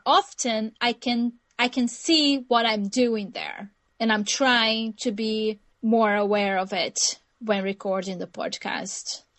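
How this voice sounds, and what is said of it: Brazilian accent. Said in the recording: “my accent, which is a Brazilian accent”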